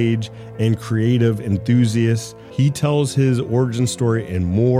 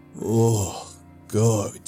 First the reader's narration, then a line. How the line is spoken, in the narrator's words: he groaned